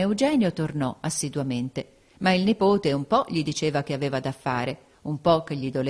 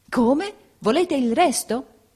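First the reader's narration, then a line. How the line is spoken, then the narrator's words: Exclaimed, turning pale. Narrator (Italian): esclamò il principe impallidendo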